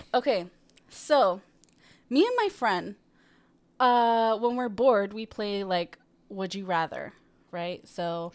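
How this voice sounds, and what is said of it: Scratchy, rough voice. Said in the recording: “my voice was kind of burnt, I guess, this morning from a really hot coffee, so it sounds terrible. A little scratchy.”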